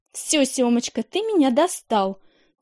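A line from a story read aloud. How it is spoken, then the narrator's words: Angry. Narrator (Russian): зло сказала Таня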